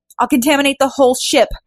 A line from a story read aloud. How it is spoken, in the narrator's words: yelled Fu